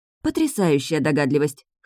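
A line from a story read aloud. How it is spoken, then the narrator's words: Disconcerted snort. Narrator (Russian): хмыкнула Таша, несколько обескураженная отсутствием у мужчины реакции на направленный в лоб пистолет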